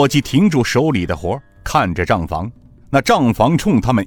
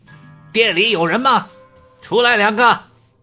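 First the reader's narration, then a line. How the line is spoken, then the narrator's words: Shouting from outside. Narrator (Chinese): 外面喊道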